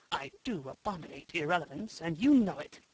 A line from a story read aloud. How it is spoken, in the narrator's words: Garth Dalmain whispered to Jane